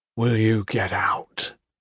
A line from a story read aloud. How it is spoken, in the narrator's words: Gentle said again, more softly